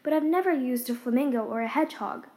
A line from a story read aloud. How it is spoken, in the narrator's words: Alice timidly answered